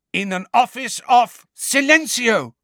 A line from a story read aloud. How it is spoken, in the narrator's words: cried Hermione